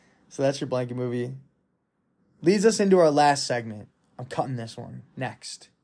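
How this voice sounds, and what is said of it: Usual voice. Nothing is said of it.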